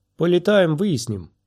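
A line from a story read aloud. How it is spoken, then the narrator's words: Cheerful reply. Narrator (Russian): бодро ответила Сириза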